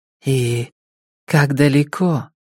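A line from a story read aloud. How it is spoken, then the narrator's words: Timid question. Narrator (Russian): робко спрашивает Карако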